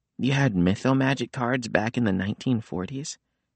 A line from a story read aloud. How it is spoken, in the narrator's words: Nico sighed